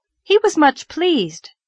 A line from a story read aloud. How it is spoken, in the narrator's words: said Anne brightly